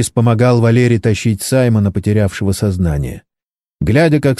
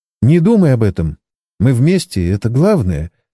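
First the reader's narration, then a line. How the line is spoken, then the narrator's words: Tender woman's voice. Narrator (Russian): ласково произнесла она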